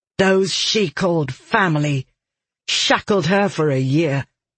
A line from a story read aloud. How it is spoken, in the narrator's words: Red said, her tone harsh